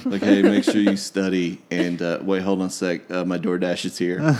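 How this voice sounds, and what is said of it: Flat dispassionate monotone imitation. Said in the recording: “it's so dispassionate ... in that monotone voice.”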